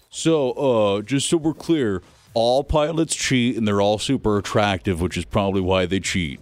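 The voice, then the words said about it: Imitates another person's voice. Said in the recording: “This is my Jamie impression.”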